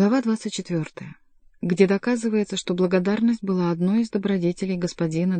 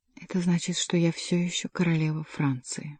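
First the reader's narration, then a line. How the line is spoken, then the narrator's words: Whisper, pitying and loving. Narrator (Russian): прошептала Екатерина, устремив на сына взгляд, в котором было столько же жалости, сколько любви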